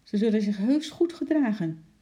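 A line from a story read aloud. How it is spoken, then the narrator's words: Shouted. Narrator (Dutch): riep Lotje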